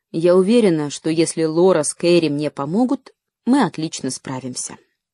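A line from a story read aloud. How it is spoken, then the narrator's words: Calm. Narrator (Russian): Мама, как всегда, спокойно сказала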